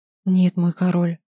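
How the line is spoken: Whispered reply. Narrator (Russian): шепнул я в ответ

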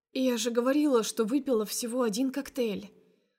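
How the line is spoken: Hoarse but carefree voice. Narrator (Russian): охрипшим, но беспечным голосом выдаю я

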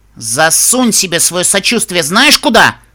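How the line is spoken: Angry outburst. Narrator (Russian): Взвилась Рабуста

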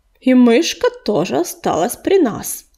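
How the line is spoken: Explaining. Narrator (Russian): пояснил утес

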